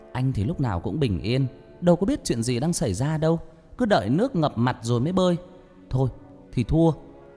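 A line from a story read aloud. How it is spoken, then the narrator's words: Irritated shout back. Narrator (Vietnamese): Tôi bực mình mới quát lại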